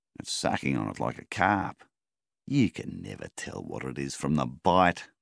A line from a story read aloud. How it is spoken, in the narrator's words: scoffed Milvin